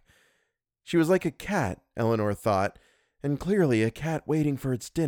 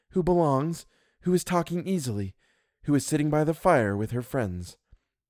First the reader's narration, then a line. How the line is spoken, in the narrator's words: told herself triumphantly